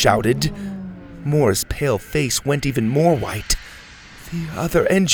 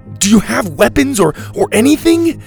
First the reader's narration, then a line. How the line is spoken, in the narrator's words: Dylan shouted